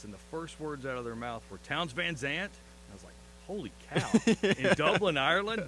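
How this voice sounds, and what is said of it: Texan rural accent. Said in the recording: “Apparently, I talk like a hick. ... from Texas”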